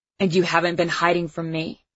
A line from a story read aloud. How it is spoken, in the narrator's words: Now his voice had an angry edge to it